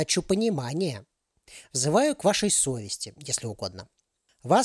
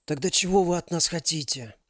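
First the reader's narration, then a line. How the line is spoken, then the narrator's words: Hoarse wheeze. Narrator (Russian): прохрипел Максим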